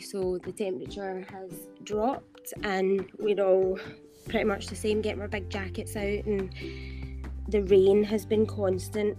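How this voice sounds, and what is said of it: Scottish accent. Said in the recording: “I love your accent ... I've never met an actual Scottish person ... I loved your accent ... I'm in Glasgow”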